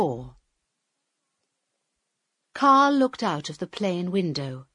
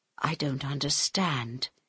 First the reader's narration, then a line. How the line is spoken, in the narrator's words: he said quietly in Harold's ear